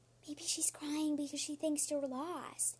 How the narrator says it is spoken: whispered Ivy

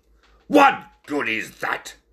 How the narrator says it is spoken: snapped the ringmaster

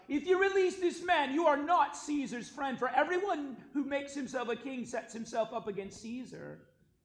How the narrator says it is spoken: the Jews cried out

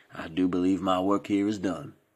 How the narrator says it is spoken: said Norman coolly

